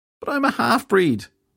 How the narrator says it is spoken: Filthy Henry wailed

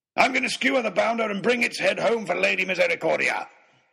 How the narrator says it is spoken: he bellowed

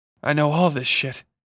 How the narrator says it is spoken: Bucky said between breaths

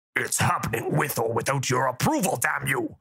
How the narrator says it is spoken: Golm said, standing up with a grunt

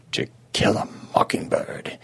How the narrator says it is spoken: he murmured

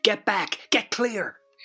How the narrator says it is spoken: yells Terry again

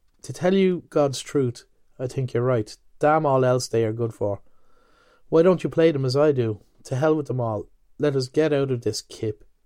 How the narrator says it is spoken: In a suddenly changed tone, he added

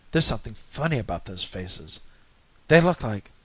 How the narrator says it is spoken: whispered

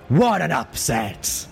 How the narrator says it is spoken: Stern's voice boomed

